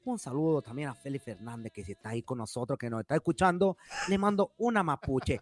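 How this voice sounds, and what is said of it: Attempted Venezuelan accent, sounds Colombian. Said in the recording (Spanish): “¿Este trató de hacer un, un acento venezolano? ... Ah, pero tú hablaste como colombiano”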